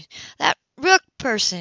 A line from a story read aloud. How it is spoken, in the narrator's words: said angrily